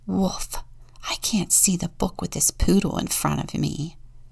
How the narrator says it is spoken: Ralph whispered

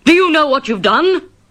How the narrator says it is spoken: He shouted

